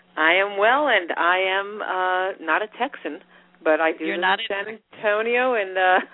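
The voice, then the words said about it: New Jersey accent. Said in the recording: “have that New Jersey accent”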